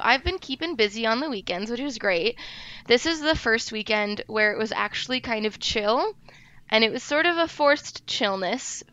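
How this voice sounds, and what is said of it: Rough, sick, gremlin-like voice. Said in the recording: “I've been sick all week. I don't normally sound like a gremlin, which is what I feel like I sound like now... I sound terrible.”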